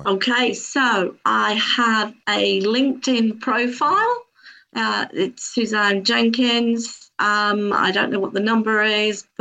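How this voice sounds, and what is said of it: British accent. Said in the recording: “I'm in the UK, folks, in case you hadn't gathered by the accent.”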